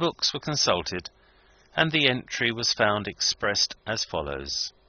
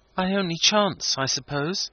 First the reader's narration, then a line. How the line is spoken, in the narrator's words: said Wilding, looking sadly